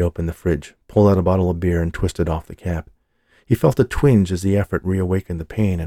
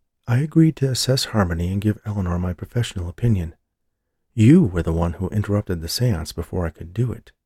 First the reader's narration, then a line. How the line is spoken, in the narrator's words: she pointed out calmly